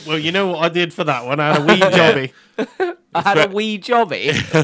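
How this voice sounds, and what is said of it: Poor put-on Scottish accent. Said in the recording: “Why is he gone Scottish? ... I feel like the wizard would be Scottish ... Terrible accent”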